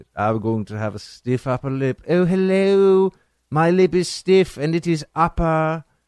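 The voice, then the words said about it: Put-on British accent. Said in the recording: “sounds so British”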